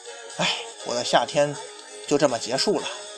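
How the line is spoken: Wistful sigh. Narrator (Chinese): 藤真也不住感叹

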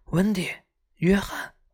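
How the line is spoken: Bursting cry. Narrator (Chinese): 温迪终于忍不住叫了出来

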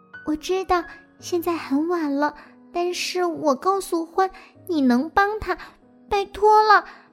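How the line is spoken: Whisper. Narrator (Chinese): 小老鼠悄声地说

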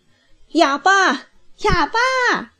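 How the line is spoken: Loud shouting. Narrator (Chinese): 高声叫着

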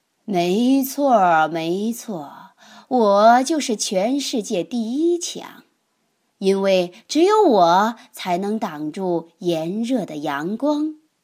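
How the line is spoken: Laughing. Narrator (Chinese): 乌云笑着说

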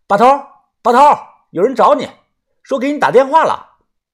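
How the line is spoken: Loud shout. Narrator (Chinese): 我大声的喊

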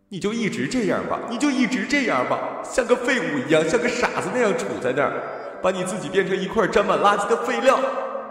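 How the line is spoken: Crying, screaming mother. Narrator (Chinese): 母亲每每哭着扯着嗓子喊

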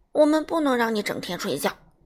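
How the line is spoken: Hurried. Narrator (Chinese): 催促先生急忙说道

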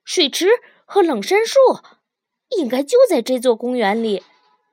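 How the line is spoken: Calling out. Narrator (Chinese): 于连叫道

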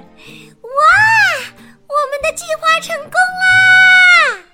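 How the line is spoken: Excited shout. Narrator (Chinese): 茉莉也兴奋的叫起来

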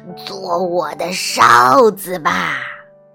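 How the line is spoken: Hoarse witch's voice. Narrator (Chinese): 黑女巫用沙哑的声音说

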